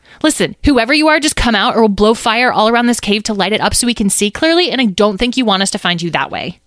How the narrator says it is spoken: yelled Petra

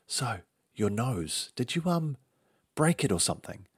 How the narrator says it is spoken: my arch-nemesis ... whispered

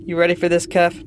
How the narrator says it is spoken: asked

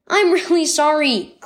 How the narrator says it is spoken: cried River

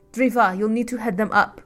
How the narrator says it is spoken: snapped

